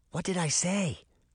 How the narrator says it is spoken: Daphne whispered to Sabrina

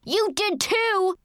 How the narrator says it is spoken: yelled

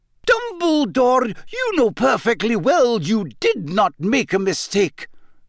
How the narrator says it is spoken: said Professor McGonagall angrily

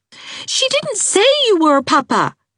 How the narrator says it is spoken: cried Trix, who was never afraid of her father when his temper was vocal

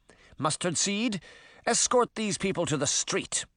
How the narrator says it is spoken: his mother snapped

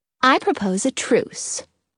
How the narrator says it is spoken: Belly says calmly

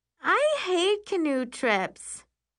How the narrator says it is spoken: Carly whines

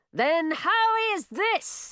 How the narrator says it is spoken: He shouted as he ran straight at the dragon

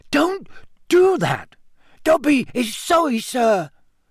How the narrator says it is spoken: squeaked Dobby anxiously

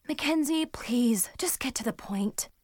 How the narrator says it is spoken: I sighed

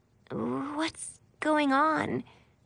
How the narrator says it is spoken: she asked sleepily

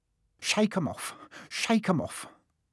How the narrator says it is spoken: would mutter

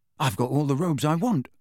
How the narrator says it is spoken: said Ron

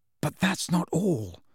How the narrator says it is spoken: said Harry in a voice only a little above a whisper

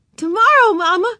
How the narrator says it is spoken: she cried

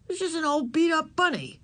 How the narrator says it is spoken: said Howie scornfully

